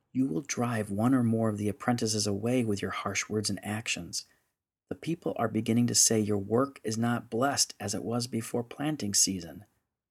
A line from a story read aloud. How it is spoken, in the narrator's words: She leaned in close and whispered into his ear